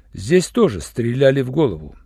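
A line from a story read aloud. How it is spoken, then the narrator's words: Dry explanation. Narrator (Russian): сухо пояснил Руальд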